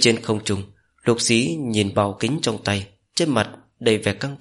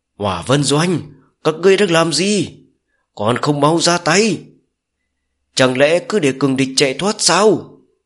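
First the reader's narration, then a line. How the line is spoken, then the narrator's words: Ferocious screaming. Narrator (Vietnamese): Song Tịnh ngửa mặt lên trời, dữ tợn gào thét với không trung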